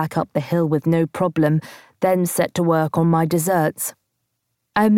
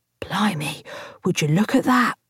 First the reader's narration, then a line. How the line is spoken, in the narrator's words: Jimmy whispered into my ear